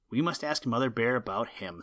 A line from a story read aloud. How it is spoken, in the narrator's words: said Woof Woof